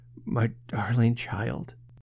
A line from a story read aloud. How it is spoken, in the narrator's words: he murmured